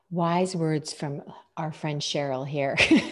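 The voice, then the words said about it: Deliberate radio announcer voice. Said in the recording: “Now using my radio voice because I'm trying to sound as intelligent as you.”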